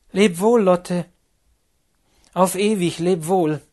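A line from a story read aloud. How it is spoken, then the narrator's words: Called out. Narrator (German): rief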